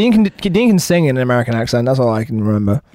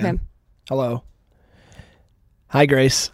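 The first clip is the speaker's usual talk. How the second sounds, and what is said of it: Put-on American accent. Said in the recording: “can you guys do an American accent? ... I just put it on”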